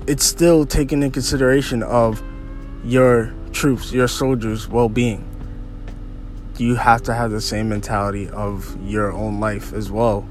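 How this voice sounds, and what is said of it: Strained voice, keeps clearing throat. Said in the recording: “I hope my voice is 10 times better next week, so so I don't keep pausing to clear my throat”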